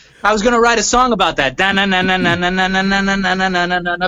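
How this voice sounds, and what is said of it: Usual voice. Nothing is said of it.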